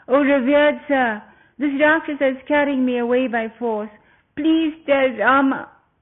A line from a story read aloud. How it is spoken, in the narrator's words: Sita she cried out